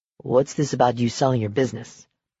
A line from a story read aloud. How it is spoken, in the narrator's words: he asked in a quiet voice